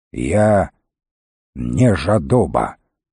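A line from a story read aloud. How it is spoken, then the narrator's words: Gloomy. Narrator (Russian): мрачно повторил волкодав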